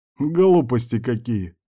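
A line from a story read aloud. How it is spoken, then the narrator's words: Off-screen voice chuckling. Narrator (Russian): хохотнул голос за кадром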